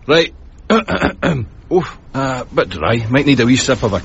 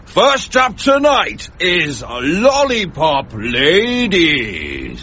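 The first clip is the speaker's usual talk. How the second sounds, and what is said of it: X Factor announcer voice. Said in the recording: “X Factor voice? ... do the voice.”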